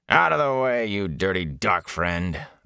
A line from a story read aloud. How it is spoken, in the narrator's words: the guard growled